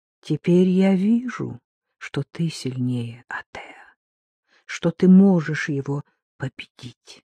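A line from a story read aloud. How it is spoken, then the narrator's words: Whisper. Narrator (Russian): прошептала она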